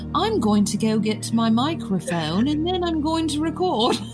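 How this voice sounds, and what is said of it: Bad put-on British accent. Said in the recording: “I'm doing a horrible, horrible attempt at a British accent”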